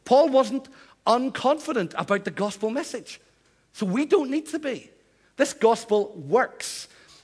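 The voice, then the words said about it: Northern Irish accent. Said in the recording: “I'm from Northern Ireland ... I still sound as if I'm from Northern Ireland”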